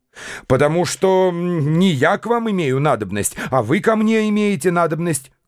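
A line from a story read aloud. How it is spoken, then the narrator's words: Heated shout. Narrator (Russian): крикнул я, вдруг разгорячившись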